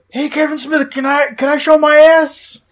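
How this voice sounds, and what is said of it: Michael Rooker impression. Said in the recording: “not my greatest imitation of Michael Rooker. ... No, it was dead on. ... Unless you can get into like a deep South gravelly voice, it's tough to get to Rooker.”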